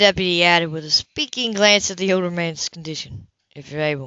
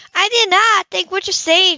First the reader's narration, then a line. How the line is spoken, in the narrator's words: Julie yelled at him